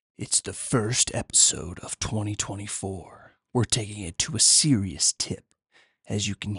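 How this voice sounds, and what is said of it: Dramatic movie trailer voice. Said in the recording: “I was just working on my movie trailer voice.”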